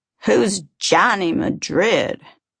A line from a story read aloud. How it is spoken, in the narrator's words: Bob asked sarcastically, repeating the name in a mocking, ridiculous fashion